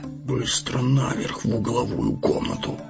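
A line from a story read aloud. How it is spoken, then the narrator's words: Whisper. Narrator (Russian): шепнул странник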